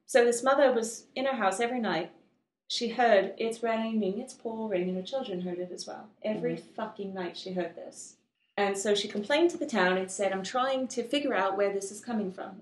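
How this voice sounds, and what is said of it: Put-on English accent. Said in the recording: “Are we going back to English accent”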